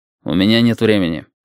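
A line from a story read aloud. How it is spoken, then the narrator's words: Dry. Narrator (Russian): сказал Тритан сухо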